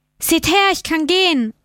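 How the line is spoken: Calling to crowd. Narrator (German): rief er den Leuten zu

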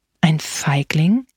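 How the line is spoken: Eerie old man's voice. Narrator (German): antwortete der Alte mit unheimlicher Stimme

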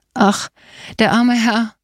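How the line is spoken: Sobbing. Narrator (German): schluchzte Katharina

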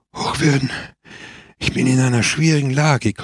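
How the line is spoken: Strong man panting. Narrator (German): keuchte der starke Mann

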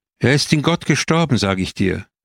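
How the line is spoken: Loud call. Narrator (German): rief sie laut

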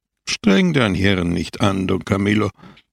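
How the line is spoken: Plain. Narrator (German): antwortete Christus

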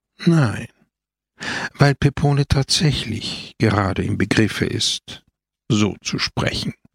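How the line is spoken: Sighing answer. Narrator (German): antwortete Christus seufzend

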